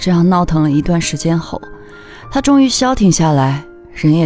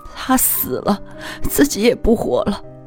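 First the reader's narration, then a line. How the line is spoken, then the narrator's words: Wailing, sobbing. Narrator (Chinese): 他嚎啕大哭，对我说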